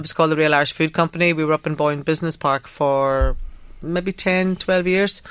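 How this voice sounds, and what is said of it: Northern Irish accent. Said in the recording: “with my northern accent”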